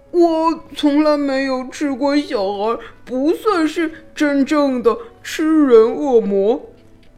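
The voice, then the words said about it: Voice on the verge of tears. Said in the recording (Chinese): “他的头低低的 用快哭出来的声音说”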